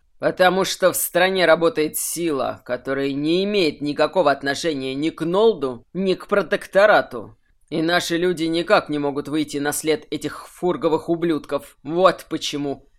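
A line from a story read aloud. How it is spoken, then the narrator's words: Growl. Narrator (Russian): прорычал карлик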